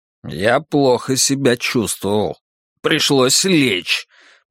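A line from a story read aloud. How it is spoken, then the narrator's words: Sarcastic, relieved, through teeth. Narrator (Russian): процедил Драккайнен саркастически, чувствуя, впрочем, некоторое облегчение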